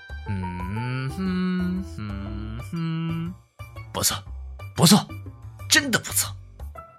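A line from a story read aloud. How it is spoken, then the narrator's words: Muttering. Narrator (Chinese): 嘟囔着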